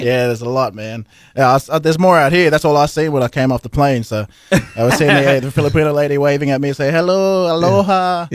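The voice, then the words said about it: Australian accent. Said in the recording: “He's from Sydney, right?... Australia... We got that accent. We brought it here... A lot of people love that accent... They have the sexiest accents”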